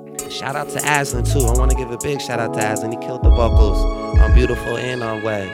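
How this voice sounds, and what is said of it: Unwell, strained voice. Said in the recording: “I apologize for my voice, man. I've been under the weather”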